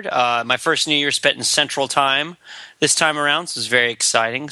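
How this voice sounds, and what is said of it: Hoarse, slightly tired voice. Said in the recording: “I'm a little bit hoarse. I'm a little bit tired.”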